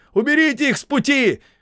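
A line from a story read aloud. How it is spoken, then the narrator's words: Shout. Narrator (Russian): крикнул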